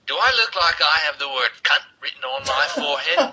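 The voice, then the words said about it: Deliberately bad put-on accent. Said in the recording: “Worst accent ever. ... we're not the best at accents either”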